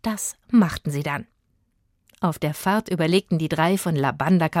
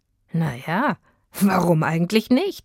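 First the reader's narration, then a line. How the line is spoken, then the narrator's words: Laughing. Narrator (German): lachte auch der Förster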